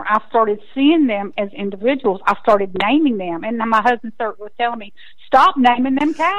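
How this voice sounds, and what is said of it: Texan accent. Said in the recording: “listen to my accent. I'm a Texas girl”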